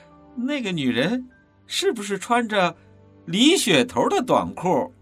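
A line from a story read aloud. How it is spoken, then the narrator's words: Giggling. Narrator (Chinese): 根龙嘻嘻笑着说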